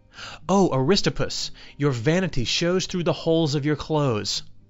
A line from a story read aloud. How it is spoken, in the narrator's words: he exclaimed